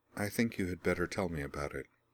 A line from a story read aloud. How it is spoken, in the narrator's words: she said quietly